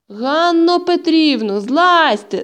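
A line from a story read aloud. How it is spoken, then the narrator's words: Shout. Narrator (Ukrainian): закричав дитячий лікар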